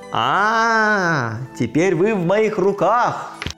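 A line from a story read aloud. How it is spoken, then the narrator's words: Loud shout. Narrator (Russian): крикнул громким голосом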